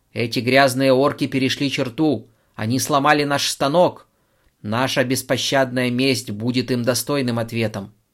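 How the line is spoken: Shouted. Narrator (Russian): прокричал

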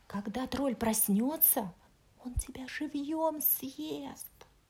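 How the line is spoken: Whispered. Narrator (Russian): прошептала принцесса

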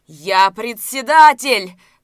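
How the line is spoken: Shouting. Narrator (Russian): крикнул Разметнов

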